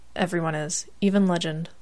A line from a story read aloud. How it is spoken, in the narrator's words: Gru replied